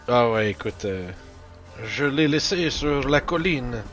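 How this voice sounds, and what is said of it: Put-on character accent. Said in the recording (French): “avec ton accent? ... préoccupez-vous pas de mon accent”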